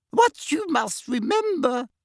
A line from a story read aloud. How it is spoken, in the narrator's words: said little Professor Flitwick squeakily